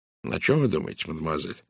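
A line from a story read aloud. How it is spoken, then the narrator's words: Very gentle question. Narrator (Russian): наконец спросил он очень мягко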